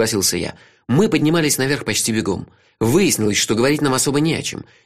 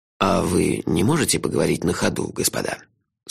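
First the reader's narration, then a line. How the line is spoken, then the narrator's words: Dry inquiry. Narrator (Russian): Сухо осведомился Лонли Локли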